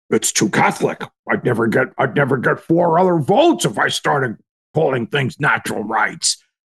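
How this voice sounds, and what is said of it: Imitates another person's voice. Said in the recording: “That's not a bad imitation of his voice. ... That was pretty good, actually.”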